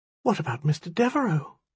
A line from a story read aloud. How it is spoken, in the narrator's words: a woman whispered